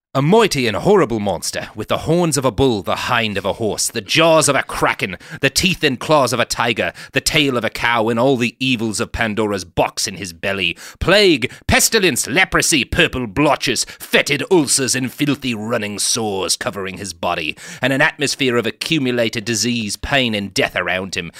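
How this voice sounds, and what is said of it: Hammed-up put-on accent. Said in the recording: “I'm gonna ham this up a little bit for you ... I might try to do an accent.”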